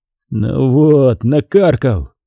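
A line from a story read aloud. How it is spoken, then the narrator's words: Grumbling. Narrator (Russian): проворчал Доронин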